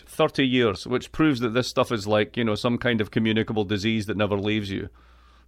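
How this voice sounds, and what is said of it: Scottish accent. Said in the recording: “I am from Scotland. I am from the east coast of Scotland. I have an accent which is just absolutely perfect”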